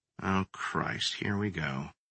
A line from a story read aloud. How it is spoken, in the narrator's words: Sam grumbled under his breath